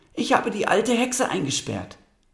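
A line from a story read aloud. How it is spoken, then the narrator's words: Calling out. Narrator (German): rief sie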